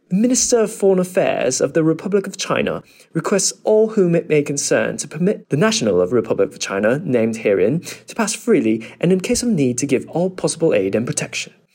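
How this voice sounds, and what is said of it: Attempted British English accent. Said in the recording (Chinese): “接下来是英式的口音 ... 这样子有没有英式发音呢？”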